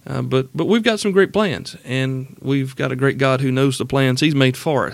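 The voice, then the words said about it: South Carolina Southern US accent. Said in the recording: “I live in South Carolina in the upstate. You probably knew that from the accent.”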